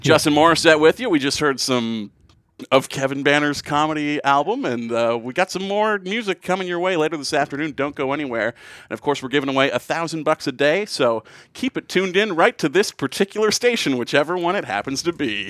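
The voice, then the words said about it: Charming, personable radio DJ voice. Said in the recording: “my like charming, personable radio voice... the radio voice”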